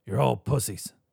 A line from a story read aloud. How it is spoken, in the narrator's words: croaked